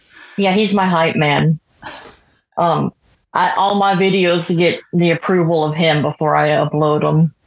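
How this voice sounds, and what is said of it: Southern US accent. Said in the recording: “I'm catching the southern accent”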